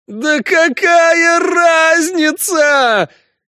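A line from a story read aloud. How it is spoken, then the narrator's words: Howling. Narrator (Russian): взвыл живой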